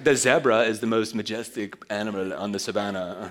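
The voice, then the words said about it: Bad imitation British accent. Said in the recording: “terrible British accent”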